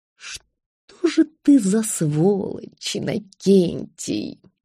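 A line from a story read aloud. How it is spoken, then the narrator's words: Groan. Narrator (Russian): простонал он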